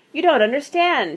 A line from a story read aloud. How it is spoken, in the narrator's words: he said desperately